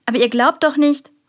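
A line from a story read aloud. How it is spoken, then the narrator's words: Called out. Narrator (German): rief die Köchin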